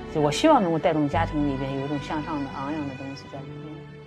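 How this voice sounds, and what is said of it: Mandarin with slight Henan-Hebei accent. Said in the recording (Chinese): “略带着一些河南、河北地区的口音的普通话”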